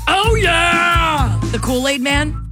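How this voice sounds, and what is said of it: Kool-Aid Man impression. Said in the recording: “my impression”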